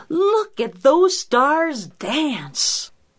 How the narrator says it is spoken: Bear exclaim

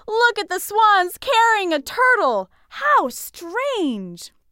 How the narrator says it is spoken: a few people looked up and shouted

